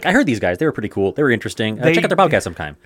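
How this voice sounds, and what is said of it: Very fast impression of a commentator. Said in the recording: “said it as quickly as he would... That's the best way to do a Ben Shapiro impression. Just, Just talk, talk, so fast you almost trip over yourself, but not quite.”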